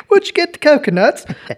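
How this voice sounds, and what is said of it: Poorly done put-on accent. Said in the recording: “as bad as my accent was there”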